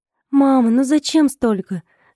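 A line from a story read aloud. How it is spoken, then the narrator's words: Moaning. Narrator (Russian): стонала я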